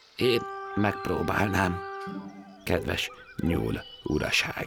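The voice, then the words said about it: Timid character voice. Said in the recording (Hungarian): “bátortalan hangon”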